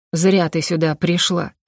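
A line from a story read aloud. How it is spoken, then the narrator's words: Growling. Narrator (Russian): прорычал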